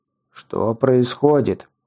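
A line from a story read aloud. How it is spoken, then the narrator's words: Deep bass bandit voice. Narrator (Russian): пробасил один из бандитов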